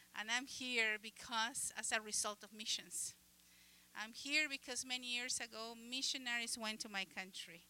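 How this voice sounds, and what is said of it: Uruguayan-accented English. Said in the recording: “I am from the country of Uruguay. You probably noticed my accent.”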